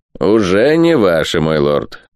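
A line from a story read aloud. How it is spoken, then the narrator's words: Dry curt retort. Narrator (Russian): сухо отрезал Перегрин Кавендиш, герцог Деваншир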